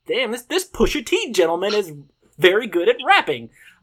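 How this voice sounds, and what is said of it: Exaggerated stereotypically white-sounding voice. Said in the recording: “In my whitest voice.”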